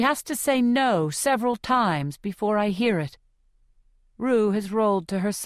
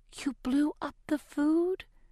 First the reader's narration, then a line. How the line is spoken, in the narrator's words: whispers